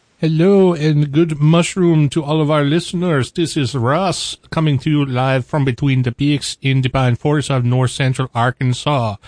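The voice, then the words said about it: Mangled mixed European put-on accent. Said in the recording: “with an undefinable accent for the evening... that was like 100% Euro trash... You took every European accent and put it all together... And mangled each and every one of them.”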